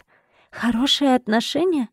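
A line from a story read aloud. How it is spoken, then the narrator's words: Hoarse, incredulous. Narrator (Russian): прохрипела я, не понимая, откуда в нем столько наглости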